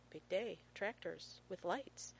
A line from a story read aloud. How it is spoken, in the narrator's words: Rodney … just below his ear, mumbles